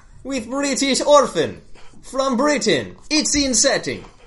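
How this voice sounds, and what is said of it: Bad put-on Russian accent. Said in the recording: “I got most of my Russian accent from Moose and Squirrel ... our bad Russian accent.”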